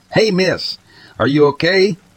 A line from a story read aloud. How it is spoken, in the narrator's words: I yelled, worrying she was suffering from exposure